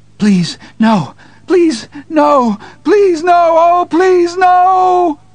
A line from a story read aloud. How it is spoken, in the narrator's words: This scream, spiraling up and up